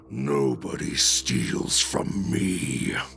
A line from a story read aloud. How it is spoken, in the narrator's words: Heeve growls